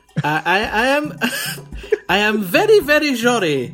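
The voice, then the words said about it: Heavy put-on Portuguese accent. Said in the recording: “answers in English with a heavy Portuguese accent ... A lot of shush sounds ... any S's can be zzzed a little bit”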